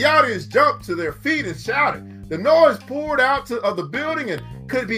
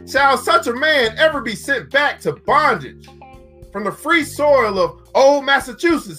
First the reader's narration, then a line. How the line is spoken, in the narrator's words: The crowd was at a fever pitch, and Garrison continued, raising his voice